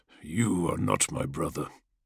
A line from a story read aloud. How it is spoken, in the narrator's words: the dragon grunted as he shifted his pained form